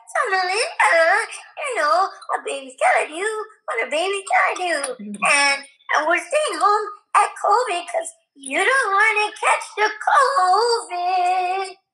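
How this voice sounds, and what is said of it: Baby voice. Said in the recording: “baby voice”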